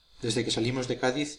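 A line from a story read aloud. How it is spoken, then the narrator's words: Plain. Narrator (Spanish): dijo Malespina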